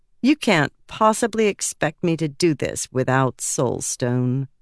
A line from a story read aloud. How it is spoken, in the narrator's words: Shai said dryly